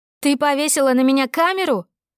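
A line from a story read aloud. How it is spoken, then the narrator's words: Furious yelling. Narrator (Russian): орала Тесса в бешенстве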